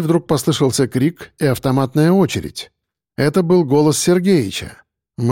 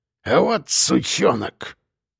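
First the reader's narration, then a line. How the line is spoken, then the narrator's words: Growl. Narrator (Russian): прорычал Ефим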